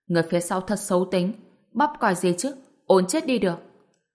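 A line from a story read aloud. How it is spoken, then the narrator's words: Annoyed voice. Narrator (Vietnamese): Dương Thanh Ngầm cũng bực bội, nói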